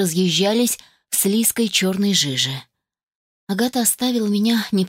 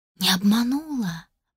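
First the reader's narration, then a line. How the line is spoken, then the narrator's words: Astonished whisper. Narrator (Russian): прошептала пораженная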